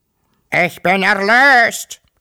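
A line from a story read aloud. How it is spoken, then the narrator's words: Louder, uglier croak. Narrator (German): krächzte noch lauter und scheußlicher als früher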